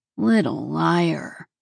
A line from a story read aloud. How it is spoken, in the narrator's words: he drawled